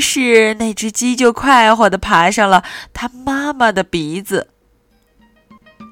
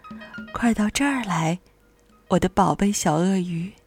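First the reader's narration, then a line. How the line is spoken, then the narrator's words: Gentle smiling whisper. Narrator (Chinese): 脸上露出了一个巨大的微笑，然后有一种非常温柔的，就像小草在说悄悄话的声音，轻声的说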